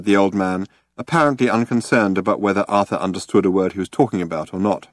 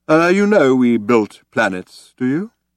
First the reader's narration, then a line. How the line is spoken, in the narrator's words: asked solemnly